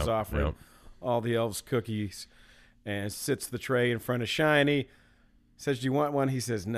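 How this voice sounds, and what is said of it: Usual voice. Nothing is said of it.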